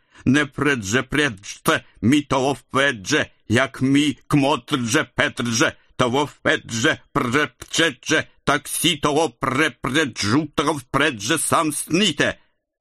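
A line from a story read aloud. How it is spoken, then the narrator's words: Menacing drunken singing. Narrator (Russian): Грозно распевал челоковицкий вампир, пьяный в русскую зюзю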